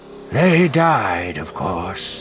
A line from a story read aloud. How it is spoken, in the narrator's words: he said, his voice distant